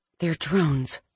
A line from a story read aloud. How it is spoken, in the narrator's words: she whispered